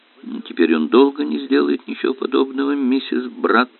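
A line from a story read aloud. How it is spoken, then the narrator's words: Grim assurance. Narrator (Russian): мрачно заверил инспектор Воэн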